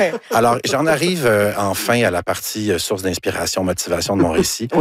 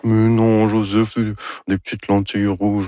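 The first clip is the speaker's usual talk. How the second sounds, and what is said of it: Imitates another person's voice. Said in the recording (French): “Ça, c'est mon imitation de Anne Dorval... Très réussi”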